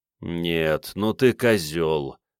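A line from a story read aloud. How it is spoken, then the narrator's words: Groan. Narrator (Russian): застонал Игорь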